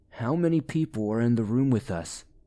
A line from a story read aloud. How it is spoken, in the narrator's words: asked